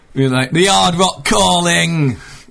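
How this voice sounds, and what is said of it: Put-on Yorkshire accent. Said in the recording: “So you've adopted a Yorkshire accent there for if you're being cool about the Hard Rock Calling”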